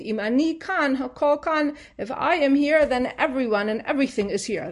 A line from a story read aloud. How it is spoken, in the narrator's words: Hillel exclaimed